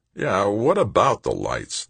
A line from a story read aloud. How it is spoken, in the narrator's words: the president asked